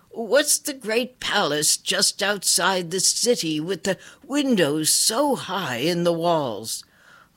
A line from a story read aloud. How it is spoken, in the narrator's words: he called out